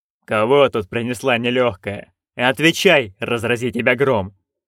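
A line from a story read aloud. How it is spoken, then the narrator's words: Menacing bark. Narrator (Russian): грозно рявкнул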